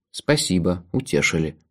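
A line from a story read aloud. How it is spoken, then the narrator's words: Grumbling. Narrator (Russian): проворчал я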